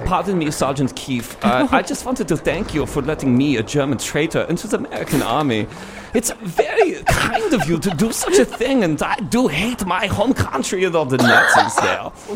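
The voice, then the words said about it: Put-on German accent. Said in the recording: “you do the best German impression”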